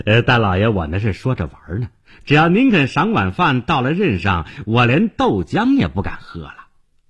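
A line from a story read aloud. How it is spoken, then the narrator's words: Fawning laugh. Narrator (Chinese): 他谄笑着说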